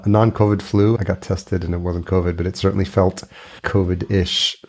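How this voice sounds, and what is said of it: Slightly congested voice. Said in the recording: “I sound a little congested”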